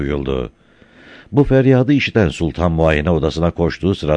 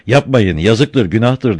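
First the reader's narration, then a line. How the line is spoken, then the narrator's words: Starts shouting. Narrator (Turkish): diye bağırmaya başladı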